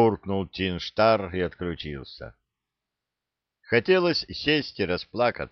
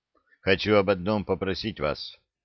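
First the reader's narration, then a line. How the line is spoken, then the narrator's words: Muffled, hollow voice. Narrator (Russian): глухо сказал адмирал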